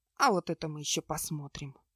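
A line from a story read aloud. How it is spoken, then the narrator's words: Quiet. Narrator (Russian): тихо сказала она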